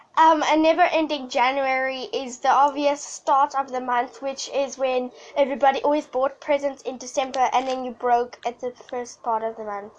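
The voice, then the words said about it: Weird, sick-sounding voice. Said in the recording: “excuse my excuse my weird voice. I'm sick.”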